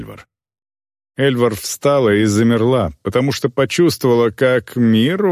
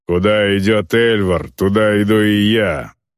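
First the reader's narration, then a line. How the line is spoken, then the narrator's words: Growl. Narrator (Russian): прорычал Грэнд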